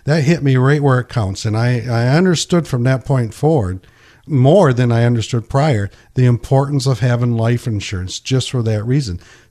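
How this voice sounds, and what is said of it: Emotional, choked-up voice. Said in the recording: “I'm getting emotional as we're talking about it.”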